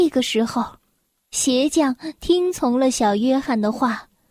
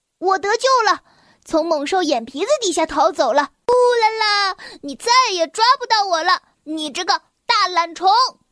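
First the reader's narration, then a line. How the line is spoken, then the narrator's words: Loud shout. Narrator (Chinese): 他大声的喊道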